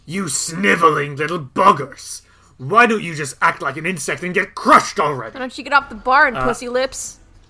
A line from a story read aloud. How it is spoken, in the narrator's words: snarls down at you all, and he says